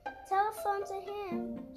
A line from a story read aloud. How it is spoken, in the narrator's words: shouted Benny